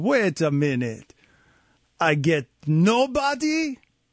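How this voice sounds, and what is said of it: Bad put-on Russian accent. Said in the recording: “Was that a terrible Russian accent?”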